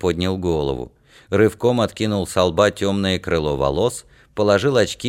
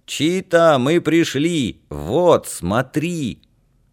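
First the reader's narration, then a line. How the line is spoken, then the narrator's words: Joyful yell. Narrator (Russian): Алька радостно завопил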